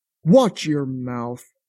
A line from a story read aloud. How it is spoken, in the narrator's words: Jaquez barked